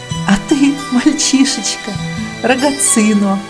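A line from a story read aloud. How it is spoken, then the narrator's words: Laughing. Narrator (Russian): засмеялась я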